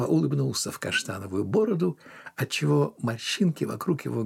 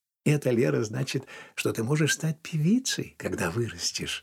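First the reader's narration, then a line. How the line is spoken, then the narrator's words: Gentle, mother. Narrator (Russian): ласково сказала мама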